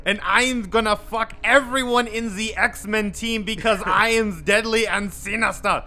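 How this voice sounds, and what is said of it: Yelled put-on German accent. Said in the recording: “he yells with a German accent ... I'm so glad you did that voice.”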